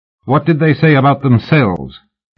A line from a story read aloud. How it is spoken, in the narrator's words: Fraser said sharply